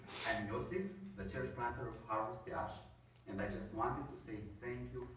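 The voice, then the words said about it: Strange accent in English. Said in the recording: “please excuse my strange accent.”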